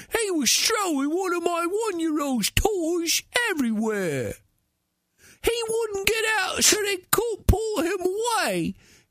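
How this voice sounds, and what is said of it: Silly put-on voice. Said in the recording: “do that stupid voice”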